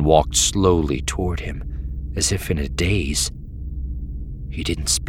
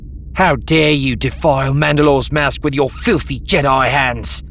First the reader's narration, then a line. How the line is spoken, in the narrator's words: Vila shouted